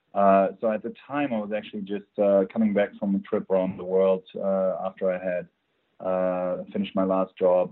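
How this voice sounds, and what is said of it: Slight German accent. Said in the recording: “as you can probably tell on my accent, I'm originally from Germany. I try to hide it, but I don't fully manage to.”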